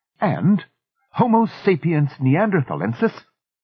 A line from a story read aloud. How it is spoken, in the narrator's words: Miss Fellows said in a crisp tone